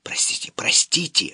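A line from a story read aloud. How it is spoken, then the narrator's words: Whisper. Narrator (Russian): шептал я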